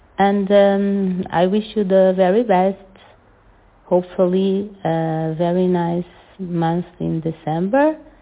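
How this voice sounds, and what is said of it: Portuguese-accented English. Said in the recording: “this Portuguese accent, ... how someone from Portugal speaks English”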